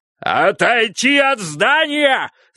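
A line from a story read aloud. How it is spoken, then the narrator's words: Yell. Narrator (Russian): завопил он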